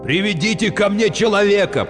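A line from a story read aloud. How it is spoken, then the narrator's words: Shouted through screen. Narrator (Russian): крикнул Катя с экрана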